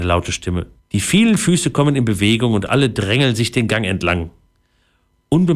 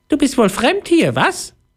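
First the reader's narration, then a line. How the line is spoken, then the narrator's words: Squeaky little voice. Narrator (German): ein piepsendes Stimmchen hinter sich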